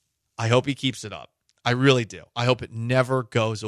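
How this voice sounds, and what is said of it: Usual voice. Nothing is said of it.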